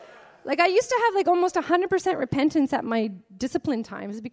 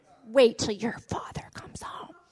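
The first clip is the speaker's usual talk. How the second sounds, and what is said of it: Demon voice. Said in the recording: “With a demon voice”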